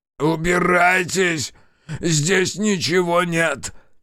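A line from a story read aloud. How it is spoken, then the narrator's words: Shout. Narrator (Russian): крикнул он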